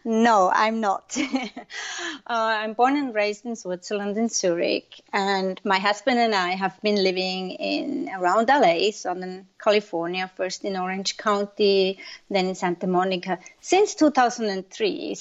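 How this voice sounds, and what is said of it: Non-American foreign accent. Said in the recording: “I'm just going to go by your accent and say that you are not a Native American.”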